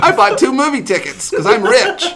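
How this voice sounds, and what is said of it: Impression of a friend. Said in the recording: “do your Mike Seibert impression”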